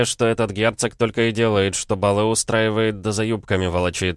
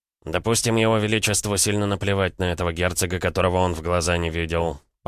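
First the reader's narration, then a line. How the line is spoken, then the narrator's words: Muttered under breath. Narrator (Russian): пробормотал Краснов себе под нос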